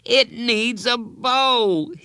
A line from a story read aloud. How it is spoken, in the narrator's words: wailed